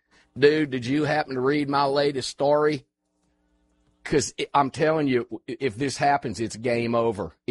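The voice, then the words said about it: Imitates another person's voice. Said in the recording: “I'll do my best AWR Hawkins Breitbart News impersonation.”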